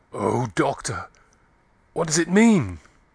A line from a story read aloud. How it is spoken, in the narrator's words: Klim saying, in an agonized voice